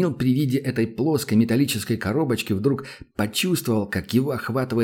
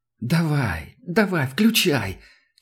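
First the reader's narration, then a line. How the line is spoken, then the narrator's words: Almost moaning. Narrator (Russian): Чуть ли не простонал рядом Санька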